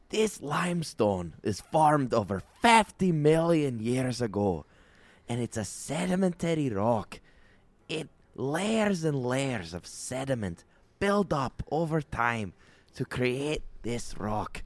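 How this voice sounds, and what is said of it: Enthusiastic Scottish man's voice. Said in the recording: “hosted by this very enthusiastic Scottish man ... I always did a really good impression of him too”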